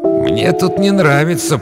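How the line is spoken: Grumbling. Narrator (Russian): проворчал он

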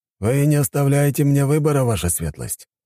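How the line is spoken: Sighing. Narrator (Russian): снова вздохнул жандарм

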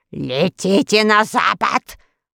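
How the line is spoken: Woman's growl. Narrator (Russian): прорычала волшебница

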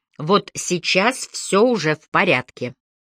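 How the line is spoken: Firm, stern. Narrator (Russian): сказала твердо и строго

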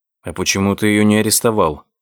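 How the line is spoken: Plain. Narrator (Russian): спросил Кристиан

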